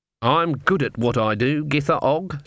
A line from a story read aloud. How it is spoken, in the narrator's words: said Granny